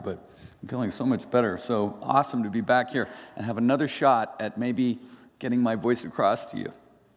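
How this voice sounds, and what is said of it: Slightly raspy voice. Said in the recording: “My voice is still kind of, you know, a little bit raspy”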